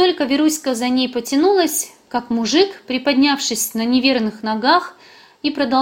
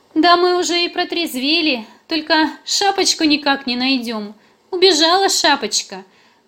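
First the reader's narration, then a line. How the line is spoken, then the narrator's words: Laughing. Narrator (Russian): Засмеялась Веруська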